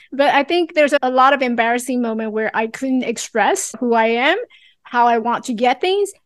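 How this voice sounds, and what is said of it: Slight Chinese-English accent. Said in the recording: “I still carry a little bit of Chinglish accent in there, if you are able to catch it”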